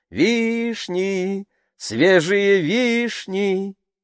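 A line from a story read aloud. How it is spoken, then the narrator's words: Sing-song street cry. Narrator (Russian): торговцы фруктами кричали нараспев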